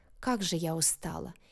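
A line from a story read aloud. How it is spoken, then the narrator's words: Unrestrained weary whisper. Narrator (Russian): не сдержавшись, зашептала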